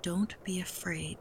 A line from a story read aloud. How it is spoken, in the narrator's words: Tutu said quietly